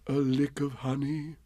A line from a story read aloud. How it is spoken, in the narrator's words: murmured Bear to himself